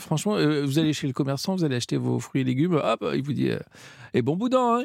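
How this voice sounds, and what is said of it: Provençal French accent. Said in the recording (French): “Ça, c'était votre accent ... beaucoup moins bien l'accent provençal”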